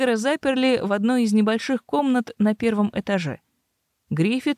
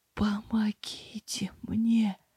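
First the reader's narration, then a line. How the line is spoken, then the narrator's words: Wheezing plea. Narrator (Russian): просипел он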